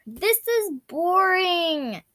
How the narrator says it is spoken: Dudley moaned

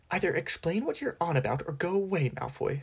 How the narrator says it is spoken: said Hermione testily

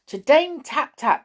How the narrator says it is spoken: cried

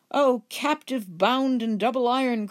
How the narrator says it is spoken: cried the phantom

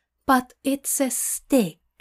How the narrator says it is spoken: Aziraphale says in a careful tone

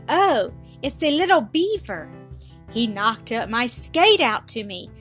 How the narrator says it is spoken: The little girl clapped her red mittened hands again and cried

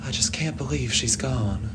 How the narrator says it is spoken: Charlotte whispered solemnly

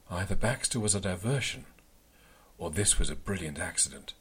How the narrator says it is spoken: said, gasping at the chaos around me

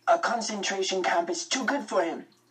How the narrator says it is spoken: Max cried

